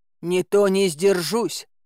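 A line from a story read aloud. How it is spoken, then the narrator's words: Growling. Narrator (Russian): прорычал Илья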